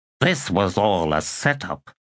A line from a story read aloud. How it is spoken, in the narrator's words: Primly muttered